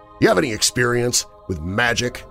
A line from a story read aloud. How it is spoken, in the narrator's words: He said through clenched teeth